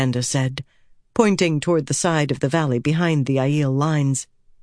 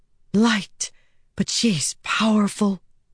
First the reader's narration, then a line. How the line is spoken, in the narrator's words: Nasuna breathed